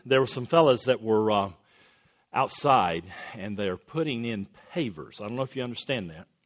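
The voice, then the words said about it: Coastal North Carolina accent. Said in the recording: “down on the coast of North Carolina ... I grew up there ... that's where that accent came from”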